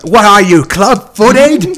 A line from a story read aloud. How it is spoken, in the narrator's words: Molly, she's shouting